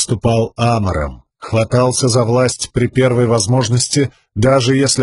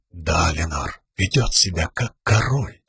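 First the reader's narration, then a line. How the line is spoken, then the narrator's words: Nearly silent muttering. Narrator (Russian): пробурчал он почти беззвучно, так тихо, чтобы лишь Сил услышала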